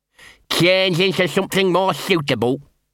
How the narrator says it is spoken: he said, his voice slightly muffled by the bone

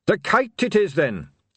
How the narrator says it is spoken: said Carrot firmly

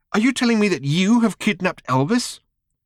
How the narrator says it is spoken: gasped Tricia

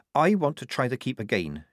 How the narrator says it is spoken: she said

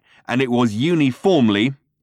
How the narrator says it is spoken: he snarled

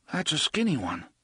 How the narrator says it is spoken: Eddie said sleepily from behind them

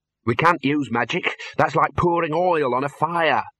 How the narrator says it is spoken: snapped the Dean

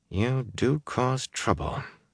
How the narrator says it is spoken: she muttered

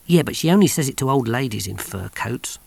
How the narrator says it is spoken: muttered Big Mac under his breath

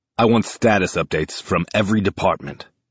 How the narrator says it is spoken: a voice barks

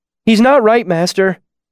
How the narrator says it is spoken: Simon said, his voice shrill with worry

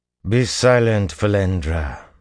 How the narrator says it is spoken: Semirag said coldly

